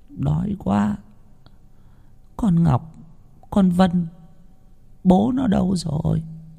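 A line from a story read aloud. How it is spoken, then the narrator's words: Weak panting whisper. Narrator (Vietnamese): Cô ba nằm hồn hển, rên rỉ một hồi rồi khe khẽ nói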